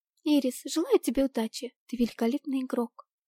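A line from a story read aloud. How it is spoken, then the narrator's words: Timid babbling. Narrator (Russian): пролепетала новенькая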